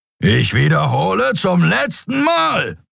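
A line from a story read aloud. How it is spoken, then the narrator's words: Roaring. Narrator (German): brüllte Thron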